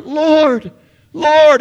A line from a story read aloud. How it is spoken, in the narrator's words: With a huge surprise gushing up from the depths of her heart, she cries out